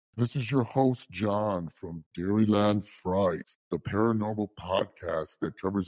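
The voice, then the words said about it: Spooky put-on host voice. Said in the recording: “I hope my spooky voice scared you”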